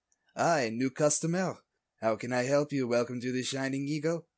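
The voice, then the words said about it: Bad put-on French accent. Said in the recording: “Is he also doing a bad French accent like me? ... Yes.”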